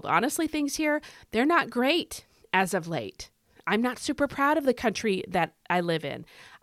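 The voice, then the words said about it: American accent. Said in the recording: “where I live, which is in America, I'm sure you can tell by my accent”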